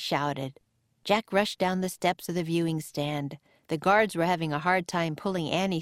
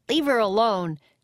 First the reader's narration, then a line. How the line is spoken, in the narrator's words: Jack yelled